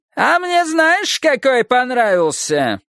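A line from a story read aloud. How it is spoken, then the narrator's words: Shrill rustic male voice. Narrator (Russian): раздался визгливый деревенский голос, точно мужской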